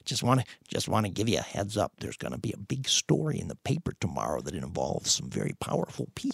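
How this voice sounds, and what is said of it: Impression of Dave Hunke. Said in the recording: “That's pretty good Hunke impersonation.”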